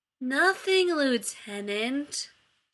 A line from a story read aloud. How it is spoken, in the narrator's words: Shepard drawled